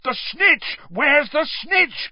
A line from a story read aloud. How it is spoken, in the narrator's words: bellowed Charlie along the row